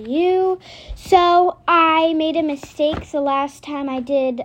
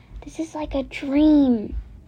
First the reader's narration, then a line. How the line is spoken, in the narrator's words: Rachel whispered